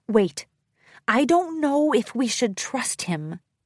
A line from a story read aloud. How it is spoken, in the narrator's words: She hissed